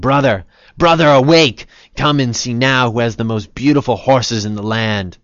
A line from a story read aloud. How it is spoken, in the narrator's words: shouting